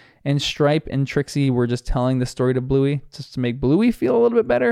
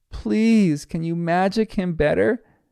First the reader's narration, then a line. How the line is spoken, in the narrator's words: She pleads even more